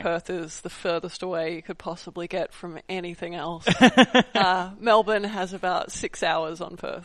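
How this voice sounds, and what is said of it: Slight non-local accent. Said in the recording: “caught a hint of an accent. You're not from here.”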